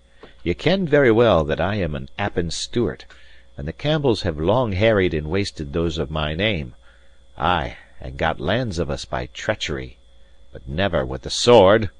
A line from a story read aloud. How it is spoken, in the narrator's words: he cried loudly